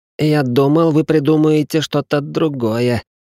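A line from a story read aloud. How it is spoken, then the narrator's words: Patient moaning. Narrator (Russian): простонал пациент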